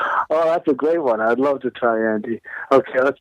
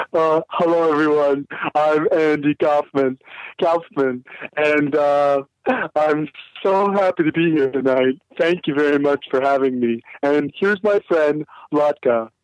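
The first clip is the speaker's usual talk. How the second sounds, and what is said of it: Imitates another person's voice. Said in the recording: “let's try his regular voice”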